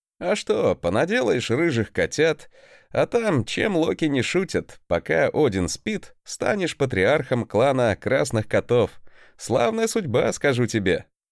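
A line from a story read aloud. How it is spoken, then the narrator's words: Chuckle. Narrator (Russian): хохотнул я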